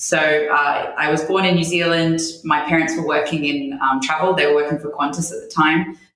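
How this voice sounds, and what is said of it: Australian-sounding English accent. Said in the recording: “my accent is not very Estonian. It's a bit more of the Australian kind.”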